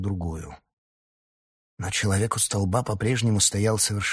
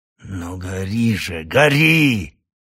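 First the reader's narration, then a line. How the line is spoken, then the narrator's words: Growling. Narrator (Russian): прорычал Сгама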